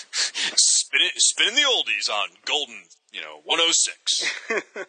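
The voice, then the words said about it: Deep radio DJ voice. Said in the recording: “you have that radio voice ... that's like a Rankin Bass level ho, ho, ho”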